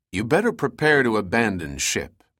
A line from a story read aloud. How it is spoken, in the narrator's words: Pitt advised in a logical tone